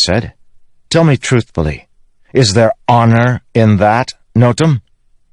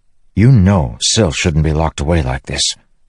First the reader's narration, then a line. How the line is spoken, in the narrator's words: Kaladin said softly